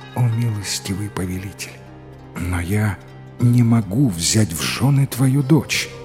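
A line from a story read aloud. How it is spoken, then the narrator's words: Barely audible, shaken. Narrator (Russian): юный раджа стал белее полотна и еле слышно произнес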